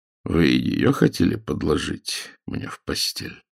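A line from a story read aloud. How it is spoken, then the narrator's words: Plain. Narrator (Russian): спросил Загорский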